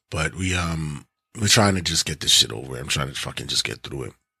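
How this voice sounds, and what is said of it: Hoarse, husky voice. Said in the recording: “I'm still a little bit hoarse ... this is probably gonna be more my sexy voice”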